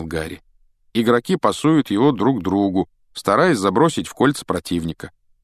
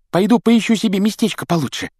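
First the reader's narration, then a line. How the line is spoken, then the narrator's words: Squeaky voice. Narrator (Russian): пропищал ему в спину Колин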